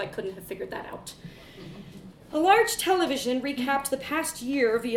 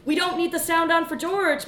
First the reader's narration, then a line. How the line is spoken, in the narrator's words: mother yelled from the back